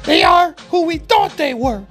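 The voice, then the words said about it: Imitates another person's voice. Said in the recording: “in my Dennis Green voice.”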